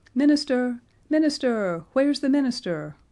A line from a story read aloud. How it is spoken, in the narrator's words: cried voices out of the revel